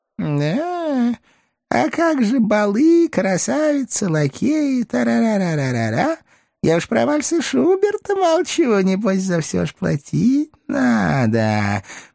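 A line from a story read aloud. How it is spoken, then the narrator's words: Purring old man. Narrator (Russian): промурлыкал дедок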